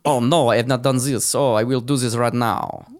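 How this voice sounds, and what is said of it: Put-on French accent. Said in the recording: “Belgian people don't have a French accent. I don't know why I did that.”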